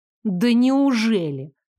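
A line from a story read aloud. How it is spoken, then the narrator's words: Incredulous exclamation. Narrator (Russian): недоверчиво воскликнула я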